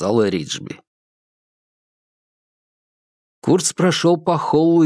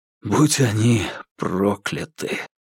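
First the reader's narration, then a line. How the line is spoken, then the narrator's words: Breathless exhale. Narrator (Russian): выдохнул Курц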